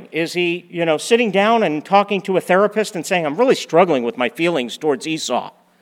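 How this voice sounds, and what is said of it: Sarcastic tone. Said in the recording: “I'm being sarcastic there. You're supposed to laugh.”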